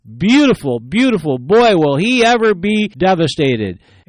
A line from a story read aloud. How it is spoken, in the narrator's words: With revenge in her eyes, she smiled and she exclaimed